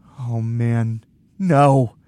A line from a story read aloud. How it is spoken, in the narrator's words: I groan